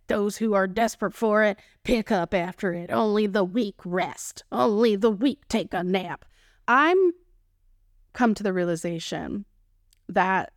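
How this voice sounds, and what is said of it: Texan accent. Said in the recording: “my Texan accent, y'all. When I get so passionate about what I'm talking about, my Texan accent just comes out”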